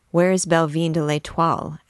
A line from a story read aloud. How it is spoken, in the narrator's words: asked Clopin